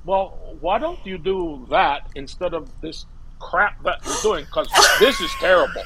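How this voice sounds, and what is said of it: Imitates another person's voice. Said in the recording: “you do a great impression. You do a really and good impression.”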